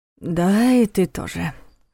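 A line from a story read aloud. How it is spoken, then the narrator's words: Sighed. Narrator (Russian): вздохнул Войтах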